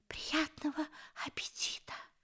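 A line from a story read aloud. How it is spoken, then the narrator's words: Whispered. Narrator (Russian): прошептал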